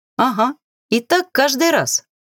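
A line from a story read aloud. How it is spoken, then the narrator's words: Girl laughing. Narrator (Russian): рассмеялась девушка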